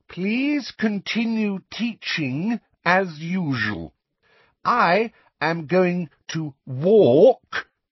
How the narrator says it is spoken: said again very loudly and slowly

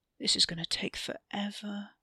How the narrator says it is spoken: Wes muttered

